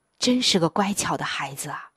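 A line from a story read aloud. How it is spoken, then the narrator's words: Sighing wife. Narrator (Chinese): 妻子叹着气说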